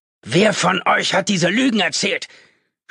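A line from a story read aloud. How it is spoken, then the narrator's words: Shouting into the room. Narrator (German): schrie er irgendwo in den Raum hinein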